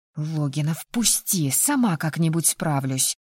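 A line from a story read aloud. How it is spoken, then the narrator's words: Quiet hiss. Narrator (Russian): тихо прошипела, не желая закатывать громкий скандал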